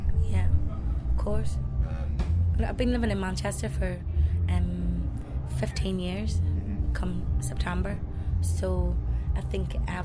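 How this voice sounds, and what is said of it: Manchester accent. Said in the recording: “really got the accent there ... I've got family from Manchester, and like my mother's from Manchester as well”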